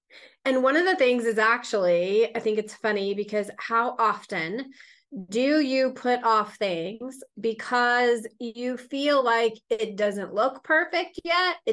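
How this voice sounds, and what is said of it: Scratchy voice. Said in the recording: “I am a little bit under the weather ... my voice is a little bit more scratchy than it usually is”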